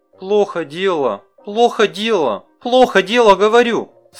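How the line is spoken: Yelling. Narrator (Russian): орала

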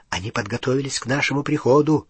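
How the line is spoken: Whisper. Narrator (Russian): прошептал Гарри

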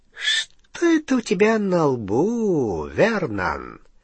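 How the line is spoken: Silky, close, menacing. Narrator (Russian): вкрадчиво спросил Сивый, дыша прямо в ноздри Гарри

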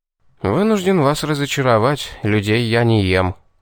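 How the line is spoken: Smirking. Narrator (Russian): хмыкнул я

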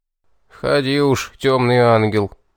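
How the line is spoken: Smirking grumble. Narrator (Russian): усмехнувшись, проворчал один из старших

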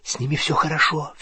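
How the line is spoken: Whisper. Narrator (Russian): зашептала она

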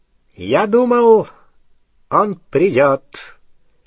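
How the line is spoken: High clear voice. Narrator (Russian): сказал Волан-де-Морт своим высоким, ясным голосом

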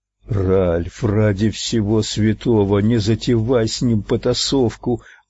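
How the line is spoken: Hissed. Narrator (Russian): прошипел МакГоверн

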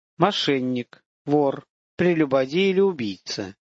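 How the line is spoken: Slow. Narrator (Russian): медленно сказал жрец

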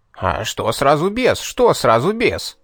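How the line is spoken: Indignant outburst. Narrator (Russian): возмущенно вскинулся этот поганец

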